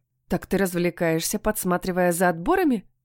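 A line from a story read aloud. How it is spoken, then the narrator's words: Short laugh. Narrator (Russian): хохотнула я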